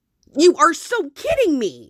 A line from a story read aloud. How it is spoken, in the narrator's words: he yelped